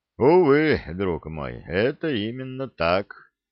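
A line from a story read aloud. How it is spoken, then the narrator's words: Sighing emperor. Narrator (Russian): вздохнул император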